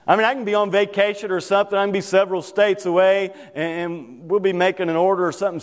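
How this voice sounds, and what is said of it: Kentucky accent. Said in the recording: “somebody knows exactly where you're from because of your accent ... You're from Kentucky, aren't you?”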